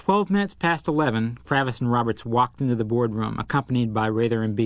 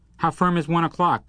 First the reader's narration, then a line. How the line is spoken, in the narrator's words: a director asked